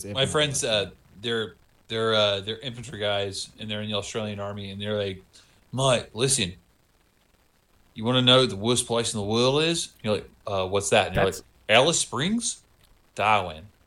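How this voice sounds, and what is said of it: Good put-on Australian accent. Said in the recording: “That's a really good Australian accent... how good that accent is... you sound like Eric Bana and Funny People... He sounds like Jim Jeffries. You've got a good Jim Jeffries.”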